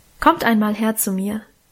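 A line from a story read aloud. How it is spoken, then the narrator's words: Plain. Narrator (German): sagte Mutter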